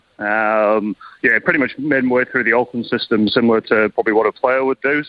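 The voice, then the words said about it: British accent. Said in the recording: “you can tell by my accent from the UK initially”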